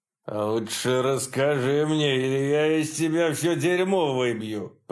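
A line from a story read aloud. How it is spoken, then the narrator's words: Growled. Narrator (Russian): прорычал Саббат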